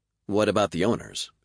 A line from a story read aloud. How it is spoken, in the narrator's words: she asked